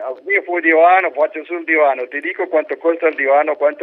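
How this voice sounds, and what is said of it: Usual voice. Nothing is said of it.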